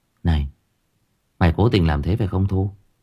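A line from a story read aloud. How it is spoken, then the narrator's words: Whisper. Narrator (Vietnamese): thì thầm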